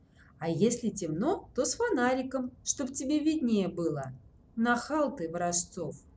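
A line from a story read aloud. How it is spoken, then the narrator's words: Nasty giggle. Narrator (Russian): Сергуня мерзко хихикнул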